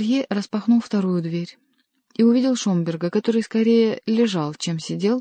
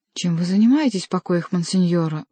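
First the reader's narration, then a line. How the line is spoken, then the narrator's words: Exclaiming. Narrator (Russian): воскликнул Орелье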